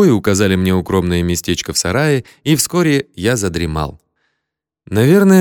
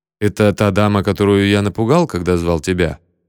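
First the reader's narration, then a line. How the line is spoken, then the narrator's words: Plain question. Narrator (Russian): спросил я Слима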